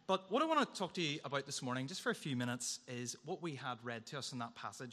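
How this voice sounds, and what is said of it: Hoarse, strained voice. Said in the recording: “lost my voice. I was shouting at the TV last night”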